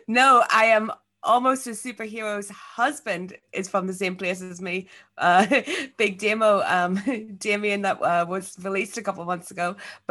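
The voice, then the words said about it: Belfast Northern Irish accent. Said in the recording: “I'm from Belfast ... that is a Belfast accent”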